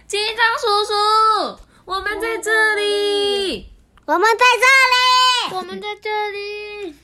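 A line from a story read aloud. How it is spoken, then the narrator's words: Two voices shouting. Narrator (Chinese): 罗罗跟跳跳大叫起来说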